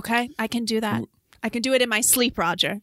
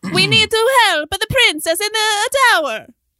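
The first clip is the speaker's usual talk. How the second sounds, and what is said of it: Put-on Italian plumber character voice. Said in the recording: “Do it in your own voice. What is the voice you're doing? ... a very accurate portrayal of an Italian plumber voice”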